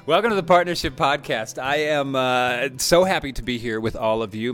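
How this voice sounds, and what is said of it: Smiling, laughing voice. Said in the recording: “I'm smiling. I think you can hear it in my voice uh, and laughing”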